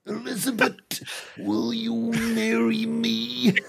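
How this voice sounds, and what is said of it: Macho Man Randy Savage impression. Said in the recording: “That fucking impression will never get any worse ... You were absolutely channeling the spirit of Randy right there ... a vessel for the spirit of Macho Man Randy Savage”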